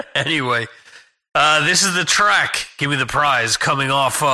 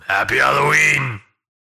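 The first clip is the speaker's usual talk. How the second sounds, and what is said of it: Imitates another person's voice. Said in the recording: “he's done all types of different voices, and I'll do my best impersonation of him”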